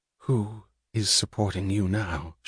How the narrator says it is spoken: She asked, her voice low

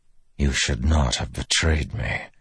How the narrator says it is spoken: Delanar whispered

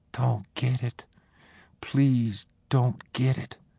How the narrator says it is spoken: whispered

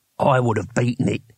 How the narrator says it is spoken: he said quietly

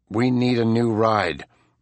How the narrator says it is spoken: Buck said grimly

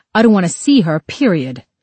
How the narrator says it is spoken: he snapped back

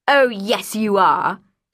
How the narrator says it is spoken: she said with a hard laugh

